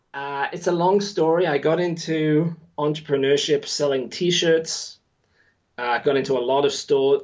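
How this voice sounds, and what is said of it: Mixed English and New Zealand accent. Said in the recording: “Englishman, living in New Zealand, my accent is all over the place now. originally from the West Midlands, so that accent is not there”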